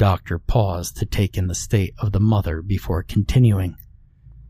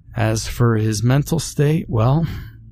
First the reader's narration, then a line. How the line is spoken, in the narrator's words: the doctor sighed heavily